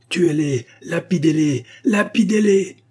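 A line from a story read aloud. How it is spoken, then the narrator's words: Crowd shouting everywhere. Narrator (French): s'écrièrent de toutes parts les chrétiens assemblés dans le temple de Jésus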